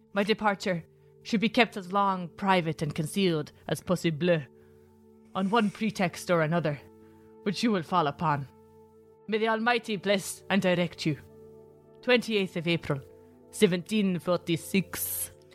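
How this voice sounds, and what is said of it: Shifting mix of put-on accents. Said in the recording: “So that was an accent ... That was like 9 accents. My skills are growing. I can multi-accent.”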